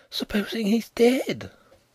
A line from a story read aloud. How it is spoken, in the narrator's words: Nelly breathed, aghast